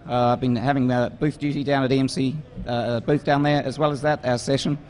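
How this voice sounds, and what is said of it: Hoarse, strained voice. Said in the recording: “my voice is starting to go ... the old voice box isn't quite holding in there”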